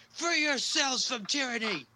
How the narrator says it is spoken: screams

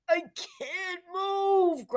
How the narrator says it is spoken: groaned the hunchback

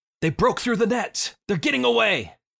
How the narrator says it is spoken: the one that you didn't shoot yells

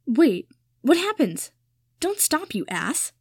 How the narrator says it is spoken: Harry said irritably

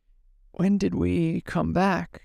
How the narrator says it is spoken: he whispered

